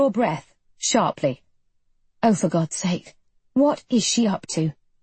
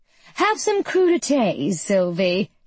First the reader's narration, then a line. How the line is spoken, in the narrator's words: she says in that bright, sparkly voice that used to be real